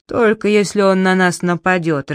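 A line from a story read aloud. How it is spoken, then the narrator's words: Irritated. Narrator (Russian): раздраженно сказал Джеральд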